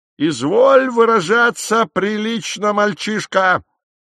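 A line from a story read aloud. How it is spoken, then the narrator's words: Barking shout. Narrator (Russian): рявкнул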